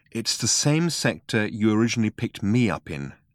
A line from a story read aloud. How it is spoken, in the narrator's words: She said, very calmly